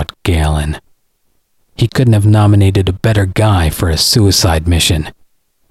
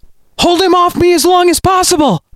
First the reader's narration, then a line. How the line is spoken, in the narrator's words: she shouted back